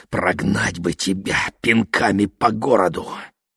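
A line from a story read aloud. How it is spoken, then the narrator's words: Hoarse rasp. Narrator (Russian): прохрипел мистер Уокер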